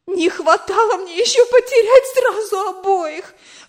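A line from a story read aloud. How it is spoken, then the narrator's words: Exclaimed. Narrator (Russian): воскликнула она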